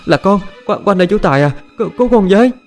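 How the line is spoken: Sobbing. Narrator (Vietnamese): Quanh nức nở trả lời

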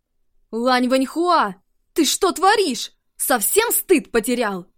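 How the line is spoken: Shouting. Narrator (Russian): Закричал Ши Дидзян

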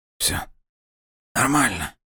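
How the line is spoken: Strained through pain. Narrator (Russian): выдавил из себя сенатор, чувствуя, как боль потихоньку начинает отступать

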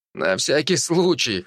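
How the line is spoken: Short chuckle. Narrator (Russian): хохотнул я

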